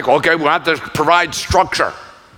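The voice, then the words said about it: Richard Nixon impression. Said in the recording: “my Richard Nixon impersonation.”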